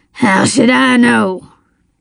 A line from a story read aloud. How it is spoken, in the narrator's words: he snarled